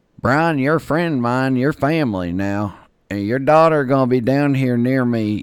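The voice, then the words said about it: Impersonation of an acquaintance's voice. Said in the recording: “I'll do my best Dean Rouse impersonation for you.”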